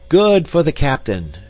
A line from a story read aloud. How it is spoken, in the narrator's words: shouted Lambert and Jacob